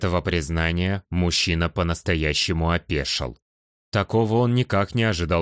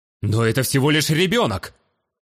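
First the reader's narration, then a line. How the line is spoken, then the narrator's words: Warrior's heated exclamation. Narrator (Russian): горячо воскликнул воитель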